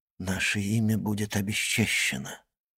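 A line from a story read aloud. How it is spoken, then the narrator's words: Grim whisper. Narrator (Russian): мрачно прошептал Максимилиан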